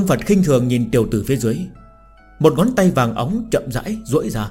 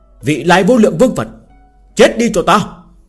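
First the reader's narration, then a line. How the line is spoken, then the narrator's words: Loud shout. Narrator (Vietnamese): hắn hét lớn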